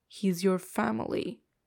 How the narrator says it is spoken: he says through gritted teeth

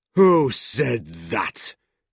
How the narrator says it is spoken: demanded Squeers, turning round angrily

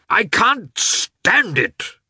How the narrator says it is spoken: cried one of the red-faced landowners

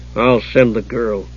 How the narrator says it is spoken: the man muttered

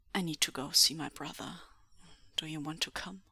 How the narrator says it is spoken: Lan Zhan murmurs

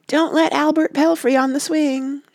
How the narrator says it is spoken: she would yell

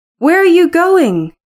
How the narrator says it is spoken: cried Kathy

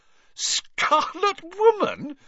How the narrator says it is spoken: she repeated, shaking with suppressed giggles

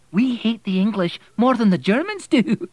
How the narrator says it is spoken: she said, laughing

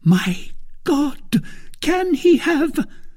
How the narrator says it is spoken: Then all at once starting, she cried

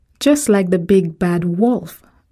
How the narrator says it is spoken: I shouted with her

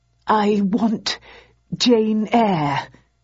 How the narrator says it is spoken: he stammered

